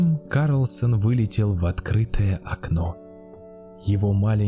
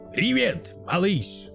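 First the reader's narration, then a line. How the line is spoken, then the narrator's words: Shouting. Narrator (Russian): крикнул Карлсон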